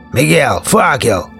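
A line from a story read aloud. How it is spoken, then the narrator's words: Big man's gloating growl. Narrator (Russian): Злорадно прорычал здоровяк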